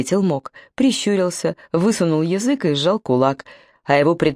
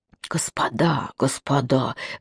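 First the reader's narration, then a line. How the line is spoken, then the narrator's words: Hissed. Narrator (Russian): зашипел Заремба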